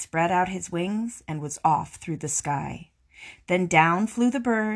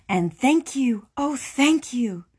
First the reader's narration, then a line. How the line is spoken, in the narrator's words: the grateful witch cried